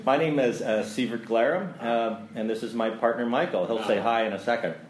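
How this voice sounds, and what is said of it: Announcer-style radio voice. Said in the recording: “Put on your radio voice.”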